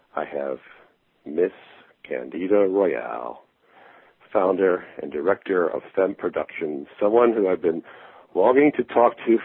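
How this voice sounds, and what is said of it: Smooth, sexy radio-announcer voice. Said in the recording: “you have quite the sexy radio voice”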